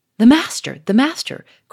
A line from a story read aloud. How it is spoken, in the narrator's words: cried Charolais, in a tone of extravagant relief